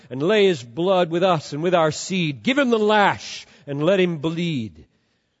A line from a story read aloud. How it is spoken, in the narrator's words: cried